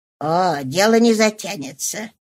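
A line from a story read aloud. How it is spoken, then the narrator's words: Muttering. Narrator (Russian): пробормотала она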